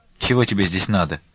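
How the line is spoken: Stern question. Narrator (Russian): строго спросила его Настя

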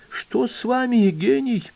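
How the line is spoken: Exclaiming. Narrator (Russian): воскликнул Альберт Карлович

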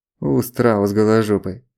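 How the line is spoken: Grumbling. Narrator (Russian): поворчал Злобин

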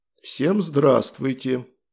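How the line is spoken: Quiet greeting in English. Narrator (Russian): Негромко поздоровался я сразу со всеми на английском

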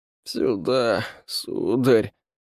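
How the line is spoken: Creaky servant's voice. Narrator (Russian): проскрипел слуга, как его там, Игорь

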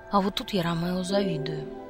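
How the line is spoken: Quiet comforting voice. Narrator (Russian): тихонько сказал, стараясь меня отвлечь от слез

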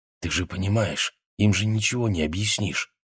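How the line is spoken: Whisper. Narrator (Russian): шепнула она

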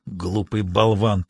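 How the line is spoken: Muttered grumble. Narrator (Russian): проворчал он себе под нос

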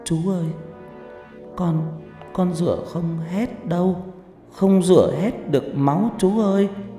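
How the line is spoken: Tearful whimpering. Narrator (Vietnamese): Nó mếu máo nói

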